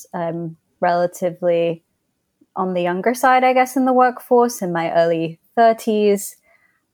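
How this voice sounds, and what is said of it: Odd mixed British accent. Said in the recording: “am British. I was born in England ... grown up across England, the US, and also Hong Kong. So that's why my accent sounds very odd.”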